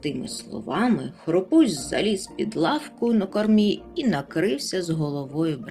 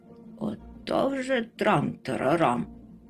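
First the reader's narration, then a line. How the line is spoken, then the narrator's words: Grumbling mutter. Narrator (Ukrainian): буркнув Мумітроль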